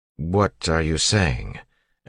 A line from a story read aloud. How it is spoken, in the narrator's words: Elland asked slowly